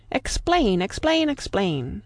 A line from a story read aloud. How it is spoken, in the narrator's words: cried all the tribe of Tegumai